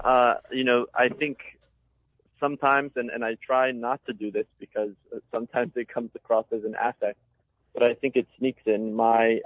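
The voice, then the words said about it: Slight Italian-tinged accent, different vowels. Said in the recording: “My father is from Italy. And so sometimes, the vowels might sound a little different ... the accent. It is so charming.”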